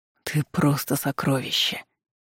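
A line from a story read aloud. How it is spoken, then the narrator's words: Convulsive exhale. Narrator (Russian): судорожно выдохнул Михаил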